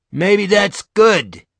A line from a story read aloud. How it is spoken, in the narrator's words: he shouts